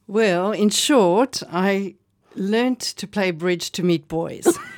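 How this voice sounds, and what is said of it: South African accent. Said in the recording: “from South Africa, as I can certainly hear by your accent”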